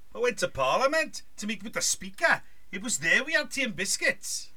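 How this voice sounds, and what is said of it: Put-on Geordie accent. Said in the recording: “Would you do a Geordie accent? ... I'm least good at this.”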